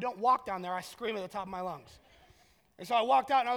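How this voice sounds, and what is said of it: Usual voice. Nothing is said of it.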